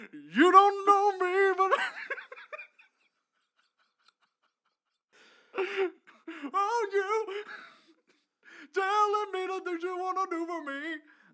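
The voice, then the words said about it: Imitates another person's singing voice. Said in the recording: “do my Michael McDonald impression”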